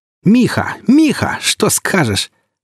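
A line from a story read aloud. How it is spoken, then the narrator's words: Joyfully excited young prince. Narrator (Russian): Радостно возбужденный царевич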